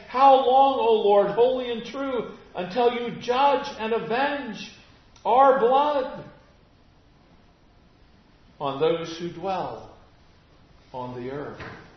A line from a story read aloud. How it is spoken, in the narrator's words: They cried out with a loud voice, saying